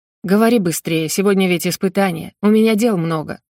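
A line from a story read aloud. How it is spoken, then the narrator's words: Irritated. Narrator (Russian): раздраженно сказал Фолин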